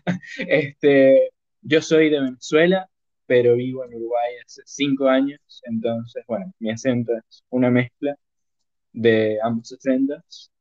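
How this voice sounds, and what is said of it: Venezuelan accent mixed with Uruguayan. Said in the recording (Spanish): “Ese acento suena, suena como raro ... se escucha como, como el acento venezolano, pero como que también tirándole así, como entre Uruguay”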